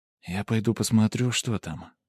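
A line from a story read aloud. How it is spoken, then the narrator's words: Whispered. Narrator (Russian): шепотом произнесла Сумира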